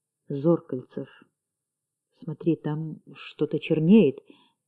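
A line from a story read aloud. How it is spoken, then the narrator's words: Quiet. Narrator (Russian): Бирюков тихо сказал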